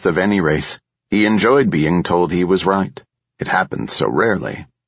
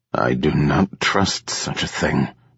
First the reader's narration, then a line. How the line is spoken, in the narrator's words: Trem muttered